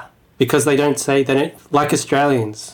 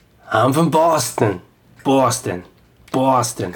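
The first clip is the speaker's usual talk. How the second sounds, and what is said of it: Put-on Boston accent. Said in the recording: “I've been working on my Boston accent. ... they don't pronounce the R's in a lot of the contexts”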